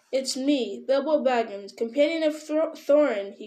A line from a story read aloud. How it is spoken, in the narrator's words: he cried, hurriedly